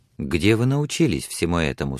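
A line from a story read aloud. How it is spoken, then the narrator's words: Plain. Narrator (Russian): спросила она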